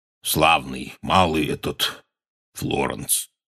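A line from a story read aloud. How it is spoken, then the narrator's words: Hoarse voice. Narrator (Russian): хрипло сказал он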